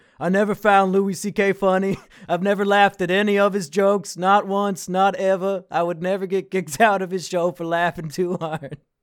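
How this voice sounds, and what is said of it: Impression of the co-host. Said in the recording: “That's my impression of you.”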